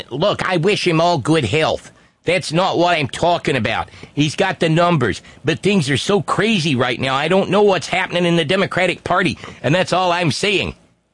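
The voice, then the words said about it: Imitates another person's voice, poorly. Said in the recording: “that's a terrible accent.”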